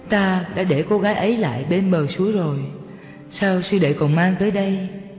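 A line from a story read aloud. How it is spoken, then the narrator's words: Smiling. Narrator (Vietnamese): Người sư huynh mỉm cười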